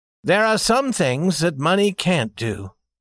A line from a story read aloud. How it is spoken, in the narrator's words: said the young man rather sadly